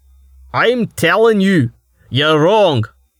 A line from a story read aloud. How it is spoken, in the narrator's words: Starvo shouted, his volume somehow rising further